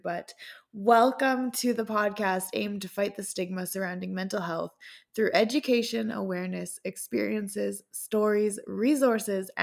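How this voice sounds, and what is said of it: Hoarse, strained voice. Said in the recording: “I'm losing my voice a little bit this week”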